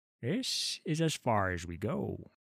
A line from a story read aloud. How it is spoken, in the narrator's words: said Olar in a low voice